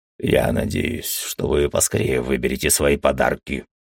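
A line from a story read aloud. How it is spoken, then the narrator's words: Tired. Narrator (Russian): устало сказал мне Капагани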